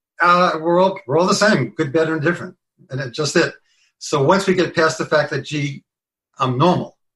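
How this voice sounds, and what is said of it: Bronx accent. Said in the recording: “he speaks with a Bronx accent ... listen to the beauty of the Bronx accent”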